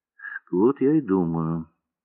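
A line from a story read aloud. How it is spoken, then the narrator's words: Calm. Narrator (Russian): спокойно сказал Морозов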